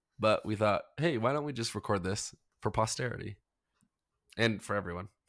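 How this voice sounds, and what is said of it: Unwell, sick-sounding voice. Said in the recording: “Pardon my voice. I've been sick.”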